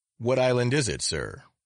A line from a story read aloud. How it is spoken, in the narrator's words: he asked